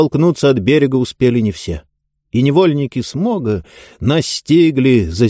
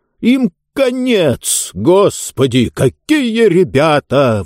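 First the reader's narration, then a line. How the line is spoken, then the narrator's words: Shocked exclamation. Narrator (Russian): воскликнул потрясенный Джонс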